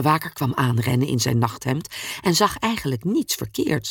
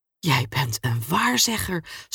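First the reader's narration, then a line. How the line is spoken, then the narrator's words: Guard stammering. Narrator (Dutch): stamelde de bewaker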